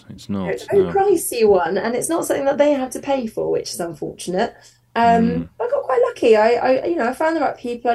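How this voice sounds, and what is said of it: Surrey English accent. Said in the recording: “I don't know if you could tell from my accent, but I'm from Surrey originally”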